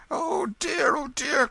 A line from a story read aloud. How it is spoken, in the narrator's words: cried the benevolent stranger